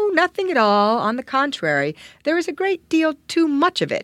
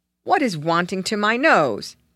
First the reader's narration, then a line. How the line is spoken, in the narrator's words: asked Wish rather savagely